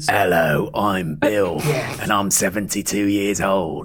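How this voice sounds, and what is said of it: Creepy demon voice. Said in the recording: “the demon voice ... doing this exact same voice ... So what's the voice? Can you do the voice?”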